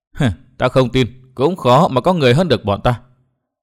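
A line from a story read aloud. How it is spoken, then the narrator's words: Cold, thin laugh. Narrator (Vietnamese): Nàng áo đen cười nhạt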